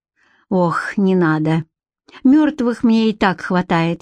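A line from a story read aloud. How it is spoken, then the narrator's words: Sighing. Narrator (Russian): вздохнула она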